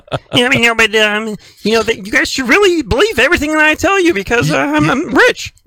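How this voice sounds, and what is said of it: Kermit-like voice, pitched an octave higher. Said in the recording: “my impersonation of Bill Gates ... You're almost channeling. Kermit the Frog there. Just one octave higher.”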